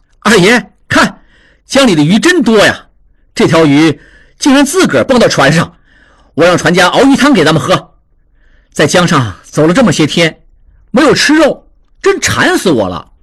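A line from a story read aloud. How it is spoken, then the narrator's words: Laughing. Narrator (Chinese): 常栓笑道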